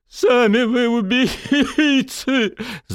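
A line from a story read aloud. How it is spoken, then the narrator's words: Hoarse rasp. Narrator (Russian): захрипел задержанный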